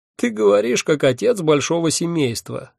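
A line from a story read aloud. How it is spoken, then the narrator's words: Sudden laugh. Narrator (Russian): неожиданно рассмеялся он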